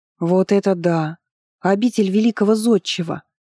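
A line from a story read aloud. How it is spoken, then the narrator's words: Admiring sigh. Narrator (Russian): Восхищенно вздохнула Анирет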